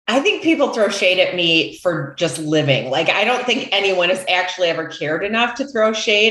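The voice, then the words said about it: Midwestern American accent. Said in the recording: “making fun of my Midwestern accent, which yes, I get, I still have. It's only been 3 months. I haven't lost it yet.”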